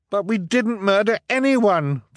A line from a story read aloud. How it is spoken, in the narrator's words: Violet cried